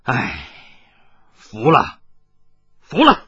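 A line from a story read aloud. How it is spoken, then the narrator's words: Long sigh. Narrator (Chinese): 他长叹了一声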